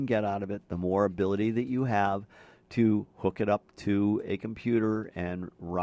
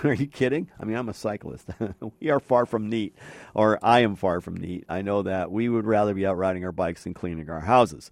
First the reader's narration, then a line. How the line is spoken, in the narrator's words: I laughed and I said